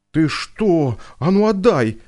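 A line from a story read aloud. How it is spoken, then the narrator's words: Angry shout. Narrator (Russian): закричала на собаку Ксюша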